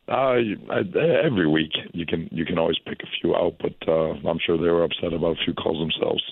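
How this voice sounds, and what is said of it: Hoarse voice. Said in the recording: “Excuse my voice. My voice a little hoarse from yesterday.”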